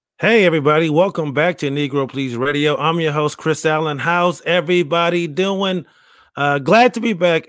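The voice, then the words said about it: Worn-out, raspy voice. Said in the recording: “this extra sexy voice. I just woke up. I was yelling on weekend. My voice is a little shot.”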